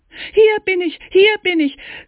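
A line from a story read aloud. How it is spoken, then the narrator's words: Muffled shout from inside. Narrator (German): schrie Daumestick aus dem Bauche des Wolfes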